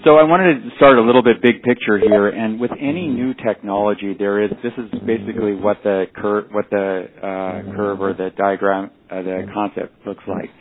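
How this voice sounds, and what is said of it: Californian American accent. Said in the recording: “the barbarian colony accent from California”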